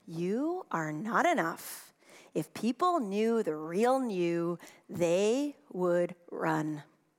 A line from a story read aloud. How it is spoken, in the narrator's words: Shame whispers